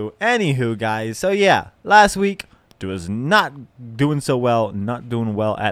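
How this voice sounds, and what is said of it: Usual voice. Nothing is said of it.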